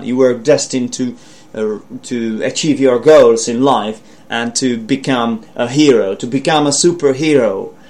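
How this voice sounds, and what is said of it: Weak attempted American accent. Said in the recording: “my American accent kind of sucks, I know. But I'm trying to do my best. ... it's not really working out for me”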